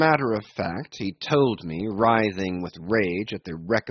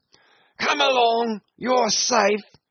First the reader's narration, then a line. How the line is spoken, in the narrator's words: yelled Brown